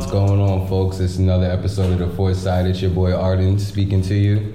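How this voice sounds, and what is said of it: Calm imitation of another person's voice. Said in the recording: “I hope I did the best impression I could do of Arden ... That sounded like mad calm”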